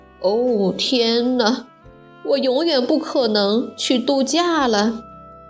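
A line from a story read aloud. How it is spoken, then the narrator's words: Dejected sigh. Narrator (Chinese): 没工作也没钱，他叹了口气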